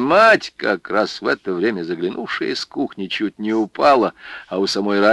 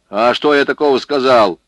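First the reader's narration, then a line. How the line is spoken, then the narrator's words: Snapping back. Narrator (Russian): огрызнулся Егорша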